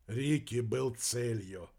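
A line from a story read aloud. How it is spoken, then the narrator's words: Sigh. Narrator (Russian): вздохнул Вернон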